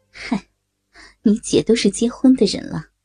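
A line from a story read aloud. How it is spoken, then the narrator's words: Laughing. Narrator (Chinese): 曲小玲笑着说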